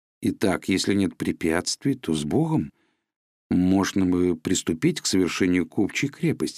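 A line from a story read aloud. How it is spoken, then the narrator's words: Plain. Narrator (Russian): сказал Чичиков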